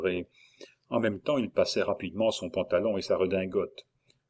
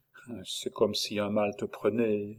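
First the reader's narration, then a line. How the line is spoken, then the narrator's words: Tearful young woman's murmur. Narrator (French): murmura la jeune femme, qui eut les larmes aux yeux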